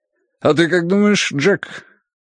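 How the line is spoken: Grunting. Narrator (Russian): Хардвик хмыкнул

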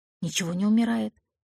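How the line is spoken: Whispered reply. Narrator (Russian): шепотом ответила я

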